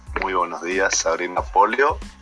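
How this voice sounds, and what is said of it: Put-on radio announcer voice. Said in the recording (Spanish): “¿te sale como voz de locutor porque estamos en el podcast o no? ... es como un acting”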